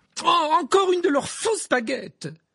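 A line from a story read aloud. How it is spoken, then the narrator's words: Exclaimed. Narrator (French): s'écria-t-elle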